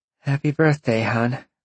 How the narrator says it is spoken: Roxy sighed

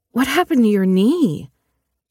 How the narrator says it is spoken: she blurted

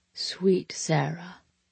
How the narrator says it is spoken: he murmured around my wild kisses

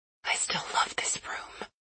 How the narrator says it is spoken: I whisper

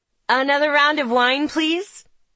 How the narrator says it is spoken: Charlie shouts

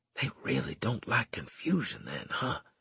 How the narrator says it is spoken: I whispered

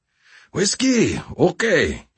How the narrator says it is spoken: he said with a wheezy flourish

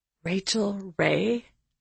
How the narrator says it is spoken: I whispered, barely able to speak, my heart racing

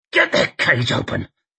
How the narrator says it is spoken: he snarled, near choking on fury

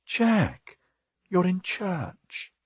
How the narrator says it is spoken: she murmured

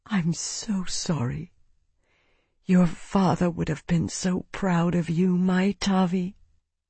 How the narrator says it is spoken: Isana whispered, too quietly for Cyril to hear

